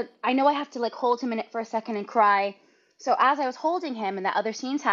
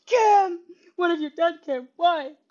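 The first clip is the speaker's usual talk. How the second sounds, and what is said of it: Imitates another person's voice. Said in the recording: “Very good impression.”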